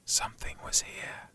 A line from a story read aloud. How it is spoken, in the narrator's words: it whispers